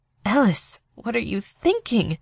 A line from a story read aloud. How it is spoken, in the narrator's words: whispered